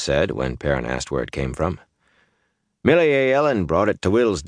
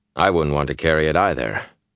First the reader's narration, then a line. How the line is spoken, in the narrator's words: Perrin said dryly